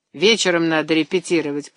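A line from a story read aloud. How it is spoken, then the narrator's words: Grumbling. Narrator (Russian): проворчал председатель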